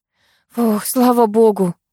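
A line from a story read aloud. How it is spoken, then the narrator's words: Relieved exhale. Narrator (Russian): выдохнула я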